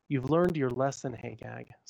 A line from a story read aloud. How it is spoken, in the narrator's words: said the angel